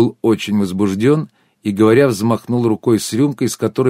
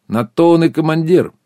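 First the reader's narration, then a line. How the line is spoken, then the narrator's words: Short guffaw. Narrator (Russian): Сергей коротко хохотнул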